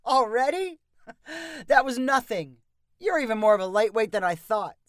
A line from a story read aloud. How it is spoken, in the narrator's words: said Mitch with a laugh